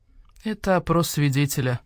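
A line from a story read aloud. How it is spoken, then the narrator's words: Tired badger replying. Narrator (Russian): устало ответил барсук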